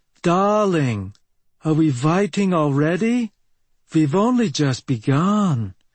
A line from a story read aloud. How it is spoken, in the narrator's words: said in a foreign accent